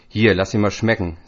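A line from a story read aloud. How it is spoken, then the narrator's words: Plain. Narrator (German): sagt er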